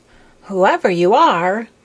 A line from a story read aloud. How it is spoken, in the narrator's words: cried Maya